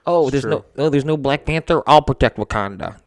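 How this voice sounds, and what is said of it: Impression of Oscar Isaac. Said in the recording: “That's my impression of Oscar Isaac.”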